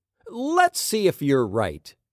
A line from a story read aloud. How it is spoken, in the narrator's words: God said